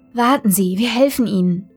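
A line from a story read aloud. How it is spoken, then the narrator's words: Melodic young woman's voice. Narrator (German): sagte die junge Arzthelferin mit melodischer Stimme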